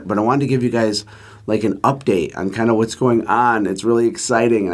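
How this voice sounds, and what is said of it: Strained, worn-out hoarse voice. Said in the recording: “My voice is destroyed”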